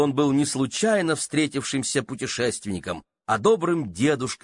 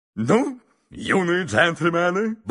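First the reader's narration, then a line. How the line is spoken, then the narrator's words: Cheerful. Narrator (Russian): бодро сказал мистер Адамс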